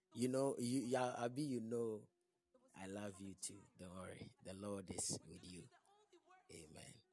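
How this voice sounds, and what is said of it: Weak, fading voice. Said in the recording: “my voice is down. It's normal because I'm losing my voice.”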